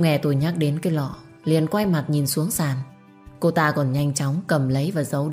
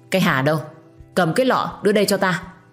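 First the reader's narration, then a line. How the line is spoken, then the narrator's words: Loud shout. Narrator (Vietnamese): Bà hội đồng như hiểu ra vấn đề, quát lớn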